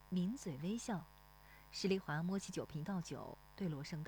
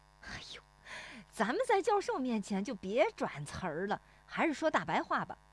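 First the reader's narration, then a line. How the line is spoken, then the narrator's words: Laughing. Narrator (Chinese): 石有福笑说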